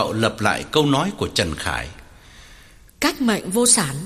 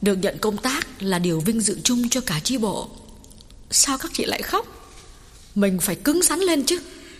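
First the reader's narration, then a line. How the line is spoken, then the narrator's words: Hasty, smiling. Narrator (Vietnamese): vội mỉm cười nói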